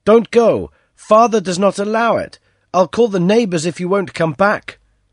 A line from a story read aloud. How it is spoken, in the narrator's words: the lad ran after Gillian, shouting